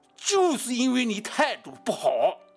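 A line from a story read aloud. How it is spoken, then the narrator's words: Loud, high, resonant. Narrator (Chinese): 声音出奇的高亢洪亮啊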